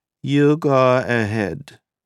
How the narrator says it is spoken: Nina said in a strained, metallic voice

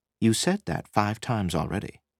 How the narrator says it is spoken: Sid pointed out gently

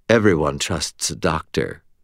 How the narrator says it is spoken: purred Butters in a tone of voice that Butters would never have used

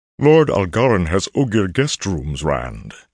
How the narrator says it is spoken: he boomed in a voice like a deep drum

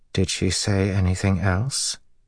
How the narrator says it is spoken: In a very calm voice, Awain asked

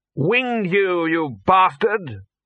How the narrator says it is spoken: what he normally shouted was

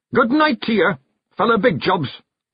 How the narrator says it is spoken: roared a figure

